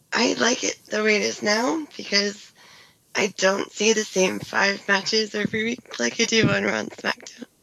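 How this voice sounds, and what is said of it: Voice in poor, rough condition. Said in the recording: “sorry again, my voice is terrible.”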